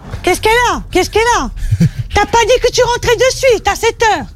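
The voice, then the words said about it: Put-on Corsican French accent. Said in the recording (French): “troisième accent mystère ... C'était l'accent corse”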